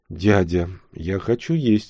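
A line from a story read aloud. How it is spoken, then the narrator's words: Plain. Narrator (Russian): сказала она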